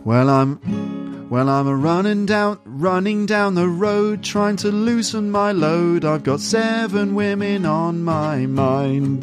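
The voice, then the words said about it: Singing in an English accent. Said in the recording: “let's do it in my English accent”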